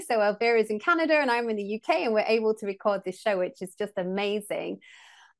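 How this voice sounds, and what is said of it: English accent. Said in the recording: “as you can maybe tell from my accent, I'm based over in England, in the UK”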